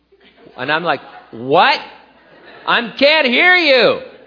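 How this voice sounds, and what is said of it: Yelling loudly. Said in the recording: “I don't know why I'm yelling.”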